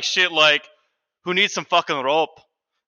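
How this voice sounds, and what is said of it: Put-on Irish accent. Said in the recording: “That's my Irish accent.”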